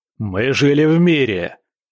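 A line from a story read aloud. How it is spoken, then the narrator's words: Roared. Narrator (Russian): взревел Ариун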